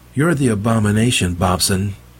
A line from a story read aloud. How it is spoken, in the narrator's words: Meg called out